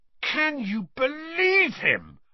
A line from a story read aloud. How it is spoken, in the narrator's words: roared Ron, as one of the remaining pixies bit him painfully on the ear